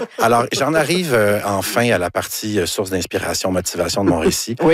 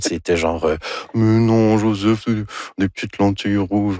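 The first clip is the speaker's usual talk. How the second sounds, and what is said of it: Imitates another person's voice. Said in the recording (French): “Ça, c'est mon imitation de Dorval. ... C'est très réussi.”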